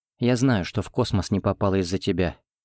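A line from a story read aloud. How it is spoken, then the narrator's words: Calm. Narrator (Russian): спокойно сказала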